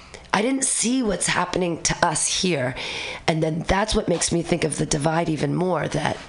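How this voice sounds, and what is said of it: Usual voice. Nothing is said of it.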